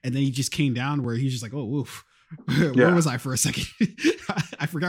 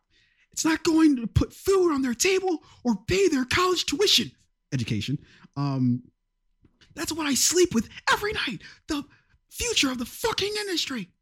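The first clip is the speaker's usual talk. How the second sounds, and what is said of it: Imitates another person's voice, agitated. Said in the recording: “my Tom Cruise impersonation ... he's on a sugar high ... he just like really fucking exploded and then receded”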